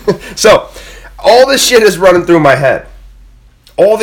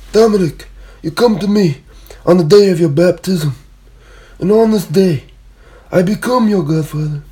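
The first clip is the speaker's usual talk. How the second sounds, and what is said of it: Bad Godfather mobster impression. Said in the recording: “really shitty godfather impersonations”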